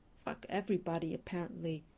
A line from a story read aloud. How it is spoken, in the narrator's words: Fraser mutters